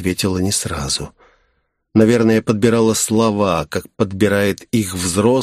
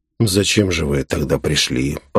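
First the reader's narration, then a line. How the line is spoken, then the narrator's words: Muttering. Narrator (Russian): пробурчал я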